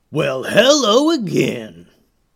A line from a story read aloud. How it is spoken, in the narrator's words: growled the leader